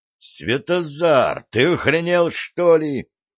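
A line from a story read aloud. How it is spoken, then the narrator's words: Howling young man. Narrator (Russian): взвыл юноша, сообразив, кто в него только что стрелял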